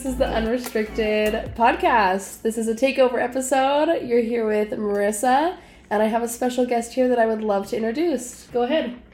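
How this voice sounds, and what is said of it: Polished radio-announcer voice. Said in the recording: “Have such a radio voice.”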